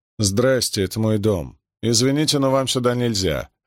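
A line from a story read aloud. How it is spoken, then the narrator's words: Plain. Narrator (Russian): ответила она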